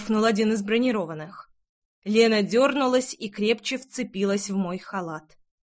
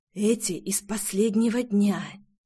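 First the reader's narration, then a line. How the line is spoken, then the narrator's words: Whisper. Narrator (Russian): шепнул Амадеа Тотти, мой зам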